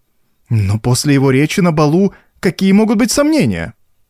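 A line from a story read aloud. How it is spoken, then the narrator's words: Exclaiming. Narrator (Russian): воскликнула госпожа Массен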